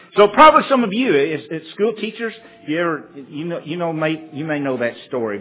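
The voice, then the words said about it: Southern American accent. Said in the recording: “the southern accent messes you up a little bit”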